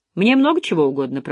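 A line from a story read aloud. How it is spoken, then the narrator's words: Grumbling. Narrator (Russian): проворчал квадратный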